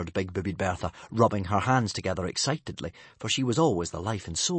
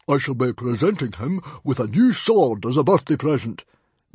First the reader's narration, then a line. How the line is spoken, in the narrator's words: boomed Stoic, trying, unsuccessfully, to sound careless and not bursting with pride at his son's achievements